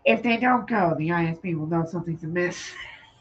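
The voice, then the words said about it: Imitates another person's voice. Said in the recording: “my best Luthen impression ... I don't know what that was.”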